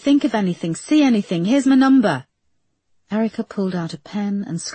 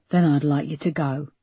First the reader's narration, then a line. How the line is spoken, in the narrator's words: the man said, his voice menacingly calm and quiet